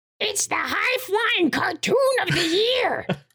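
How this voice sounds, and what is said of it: Obnoxious Birdie character voice. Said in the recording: “Says Birdie in her obnoxious fucking voice.”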